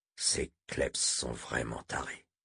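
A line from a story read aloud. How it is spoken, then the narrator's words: Mutter. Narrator (French): marmonna Moram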